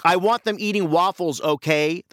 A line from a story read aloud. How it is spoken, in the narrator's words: screamed